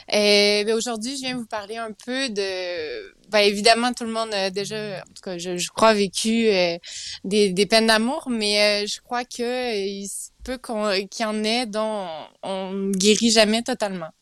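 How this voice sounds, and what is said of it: Sing-song Quebec French accent. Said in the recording (French): “tu as l'accent du Québec qui chante”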